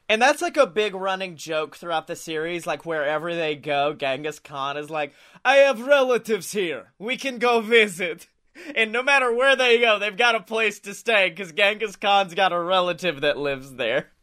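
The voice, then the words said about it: Put-on Genghis Khan character voice. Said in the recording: “your Genghis Khan accent is just bleeding into your Vlad the Impaler idea”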